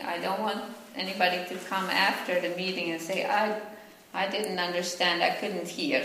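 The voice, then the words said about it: Finnish accent. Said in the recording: “I'm from Finland, and that's why I have an accent ... I never will lose my accent”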